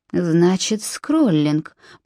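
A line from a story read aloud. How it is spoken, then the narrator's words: Muttered. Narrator (Russian): пробормотал Нимрод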